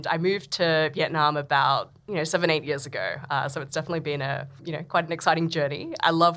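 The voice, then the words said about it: Australian accent. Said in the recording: “I'm Australian, as probably uh, people can tell from from my accent”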